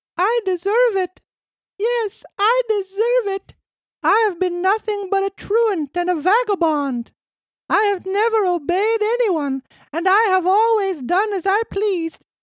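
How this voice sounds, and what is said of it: Weak, pleading character voice. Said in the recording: “cried out in a weak voice”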